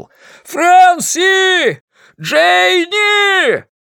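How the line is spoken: Yell through cupped hands. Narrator (Russian): сложил руки рупором и завопил

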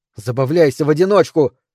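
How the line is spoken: Shouted. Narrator (Russian): крикнула Микаэла

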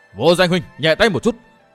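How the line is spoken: Loud shout. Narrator (Vietnamese): thần phủ Khai Sơn đã hét to

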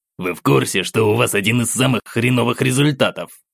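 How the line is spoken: Angry mumbling sergeant. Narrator (Russian): зло пробубнил сержант

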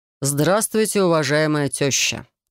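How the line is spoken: Solemn tone. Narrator (Russian): торжественным тоном произносит Демид

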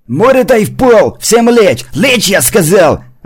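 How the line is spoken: Shouting. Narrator (Russian): закричал Тимурчик

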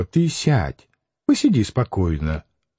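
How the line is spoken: Gentle coaxing, smirking. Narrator (Russian): Макаров, усмехаясь, уговаривал ласково

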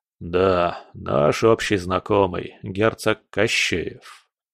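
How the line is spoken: Gloomy confirmation. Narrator (Russian): мрачно подтвердил Кудряшов

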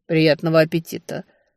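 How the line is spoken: Calm. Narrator (Russian): спокойно пожелал Таннер

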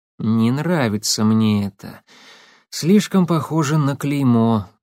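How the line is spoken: Sighing. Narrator (Russian): вздохнул Легостаев

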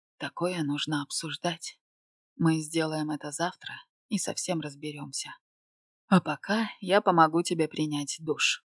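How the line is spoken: Man whispering against forehead. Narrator (Russian): Губы мужчины уткнулись мне в лоб и прошептали

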